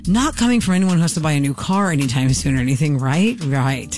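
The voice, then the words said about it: Sarcastic tone. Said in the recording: “I'm being sarcastic. Can you sense my tone?”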